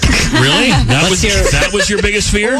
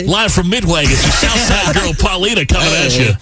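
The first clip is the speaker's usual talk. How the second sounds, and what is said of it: Radio announcer voice. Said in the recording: “what's your radio announcer voice? ... The one that Fred does? ... You don't have one of these”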